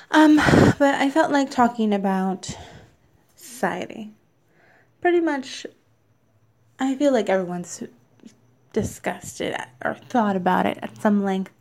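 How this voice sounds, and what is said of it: Slight lisp, British-sounding. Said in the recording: “sorry if I hear a British accent or a lisp, I'm wearing my retainer right now”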